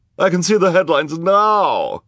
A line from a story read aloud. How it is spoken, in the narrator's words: she cried